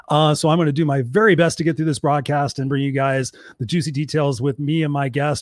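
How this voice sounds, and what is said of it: Hoarse, strained voice. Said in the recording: “my voice is severely shot. I've been talking all day and I have a very sore throat”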